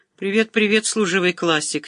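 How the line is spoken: Flustered, forced-smile reply. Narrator (Russian): Несколько растерянно, с натянутой улыбкой отозвался Зяма

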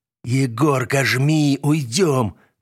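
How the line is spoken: Hoarse wheeze. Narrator (Russian): прохрипел Градов

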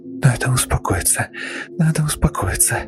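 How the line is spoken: Muttering. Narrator (Russian): бормотала она

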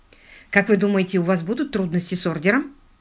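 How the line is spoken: Plain. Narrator (Russian): спросил лорд Питер

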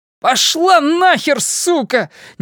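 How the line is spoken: Sudden shout. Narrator (Russian): неожиданно крикнул он

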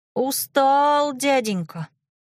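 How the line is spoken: Thin singsong. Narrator (Russian): пропел Митька тоненько

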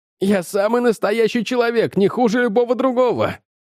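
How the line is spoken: Shouting. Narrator (Russian): кричал Джордж Шерману

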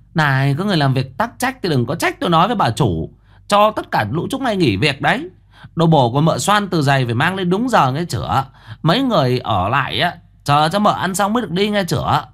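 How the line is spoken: Shrill woman's voice. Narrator (Vietnamese): Giọng mụ the thé

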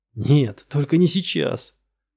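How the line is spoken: Pleading. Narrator (Russian): взмолился Лаверн

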